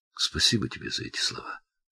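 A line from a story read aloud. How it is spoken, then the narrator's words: Quiet. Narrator (Russian): тихо сказала Келли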